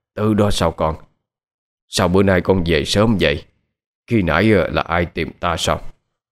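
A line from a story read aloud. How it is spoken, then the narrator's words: Soft murmur. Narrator (Vietnamese): người đó không mở mắt ra, nhưng nói khẽ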